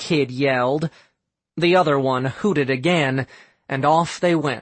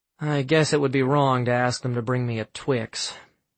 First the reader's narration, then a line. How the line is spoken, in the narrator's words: Sam muttered